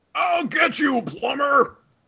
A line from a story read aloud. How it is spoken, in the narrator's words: Bowser yells